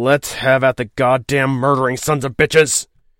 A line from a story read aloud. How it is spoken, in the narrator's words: he snarled, enraged to blasphemy